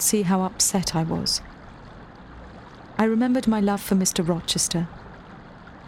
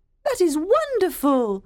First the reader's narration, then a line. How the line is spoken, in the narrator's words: Diana cried